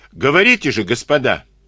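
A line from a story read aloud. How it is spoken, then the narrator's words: Loud. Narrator (Russian): Карабанов громко сказал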